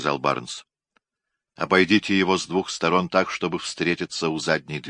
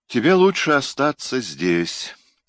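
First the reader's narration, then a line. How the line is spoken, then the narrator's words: Sighing. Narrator (Russian): вздохнул Барнс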